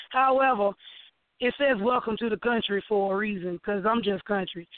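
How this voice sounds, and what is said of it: Sick, congested-sounding voice. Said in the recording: “Excuse my voice because the kids brought a cold home”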